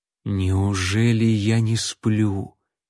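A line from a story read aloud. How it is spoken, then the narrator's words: Whisper. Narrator (Russian): прошептал Джон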